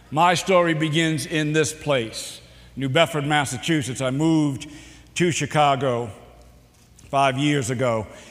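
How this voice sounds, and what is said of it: Boston accent. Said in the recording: “do you know I talk funny? ... I actually had an accent ... you're not from here ... I'm from Boston”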